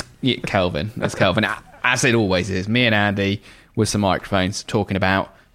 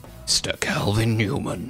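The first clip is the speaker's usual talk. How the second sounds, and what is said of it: Dramatic movie-trailer voice. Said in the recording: “I'm trying to do a movie voice to make it sound slightly more dramatic there. ... Movie man voice.”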